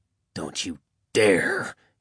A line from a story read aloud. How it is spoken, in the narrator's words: he snarled